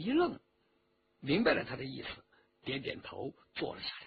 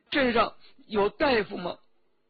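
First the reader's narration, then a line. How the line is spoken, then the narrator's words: Tearful question. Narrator (Chinese): 周启哭了一会儿，就问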